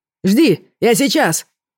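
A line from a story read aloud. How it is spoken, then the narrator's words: Shouted. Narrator (Russian): крикнул принц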